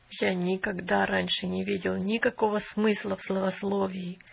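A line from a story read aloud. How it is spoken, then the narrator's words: Hoarse voice. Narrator (Russian): хриплым голосом сказал он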